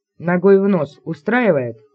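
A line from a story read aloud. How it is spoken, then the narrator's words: Snorting. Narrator (Russian): Блэк хмыкнул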